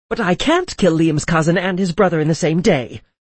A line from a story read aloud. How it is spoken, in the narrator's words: I yelled